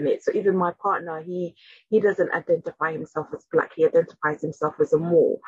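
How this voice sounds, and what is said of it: South London English accent. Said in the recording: “my accent ... I sound like I'm kind of a South Londoner, Southeast Londoner”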